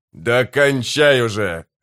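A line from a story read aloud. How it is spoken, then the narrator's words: Barked. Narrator (Russian): рявкнул Гесслер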